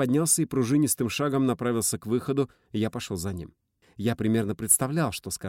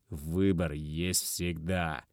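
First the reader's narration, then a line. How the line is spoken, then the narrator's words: Through clenched teeth. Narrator (Russian): сжав зубы, процедил Лео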